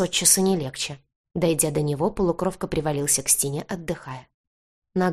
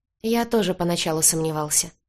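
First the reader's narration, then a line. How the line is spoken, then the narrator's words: Sad chuckle. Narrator (Russian): грустно усмехнулся Крис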